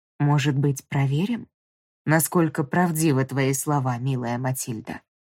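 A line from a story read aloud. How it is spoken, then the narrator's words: Sickening purr. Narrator (Russian): Промурлыкал он так, что мне стало дурно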